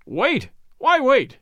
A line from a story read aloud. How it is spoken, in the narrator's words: cried the company